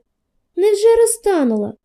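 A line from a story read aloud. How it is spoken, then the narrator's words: Sad reply. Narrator (Ukrainian): так само сумно відгукнувся Петрик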